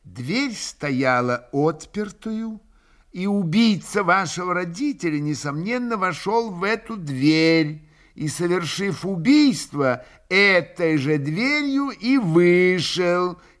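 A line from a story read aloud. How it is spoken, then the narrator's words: Slow, clipped, deliberate. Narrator (Russian): как бы отчеканивая, медленно и раздельно произнес прокурор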